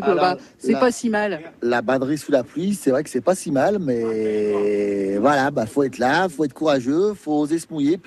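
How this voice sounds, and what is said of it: Southern French accent. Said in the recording (French): “je suis entourée d'accents, d'accent du sud, c'est rigolo. Du coup, ça apporte un peu de chaleur.”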